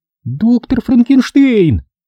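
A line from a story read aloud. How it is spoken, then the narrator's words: Exclaiming. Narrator (Russian): воскликнула она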